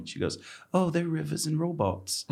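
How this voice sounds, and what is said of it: Put-on English accent. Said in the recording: “That's a good accent. ... That sounded pretty authentic. ... My grandmother's English.”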